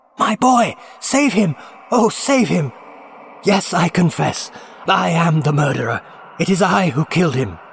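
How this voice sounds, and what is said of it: Shrieking, frantic maniacal voice. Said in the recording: “Shrieked Nicholas in the accents of a maniac”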